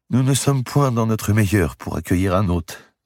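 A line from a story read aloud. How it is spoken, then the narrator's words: Sadly. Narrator (French): dit tristement Dame Eliabelle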